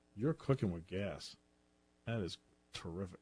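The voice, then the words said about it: Sarcastic, nearly sounds genuine. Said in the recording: “I can never tell if that's genuine or sarcasm. ... that was sarcastic. ... That was sarcasm. ... But it was very, very, very close to genuine”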